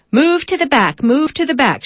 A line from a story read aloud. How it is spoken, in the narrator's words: shouts the patient driver, a heavy-set African-American woman